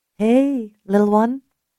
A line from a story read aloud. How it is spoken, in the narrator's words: Ellie said in a soothing voice